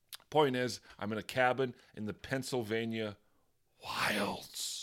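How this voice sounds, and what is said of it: Usual voice. Nothing is said of it.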